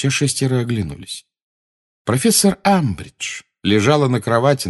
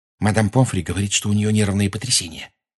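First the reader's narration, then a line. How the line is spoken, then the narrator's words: Whisper. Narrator (Russian): шепнула Гермиона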